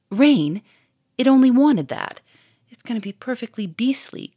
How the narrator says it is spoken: cried Germaine

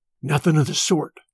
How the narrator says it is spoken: Smoke whispered back

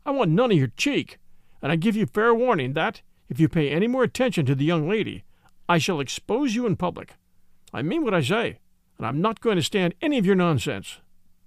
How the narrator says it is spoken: cried the horsey young man

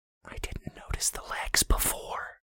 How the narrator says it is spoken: Brandy whispered

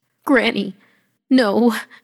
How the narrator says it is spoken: croaked

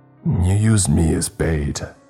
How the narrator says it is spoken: I growled

